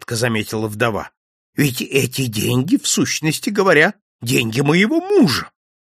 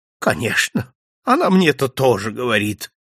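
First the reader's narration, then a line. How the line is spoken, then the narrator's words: Sighed. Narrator (Russian): вздохнула госпожа Монпарно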